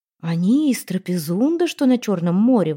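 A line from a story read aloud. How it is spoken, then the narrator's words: Exclamation. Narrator (Russian): воскликнул Кути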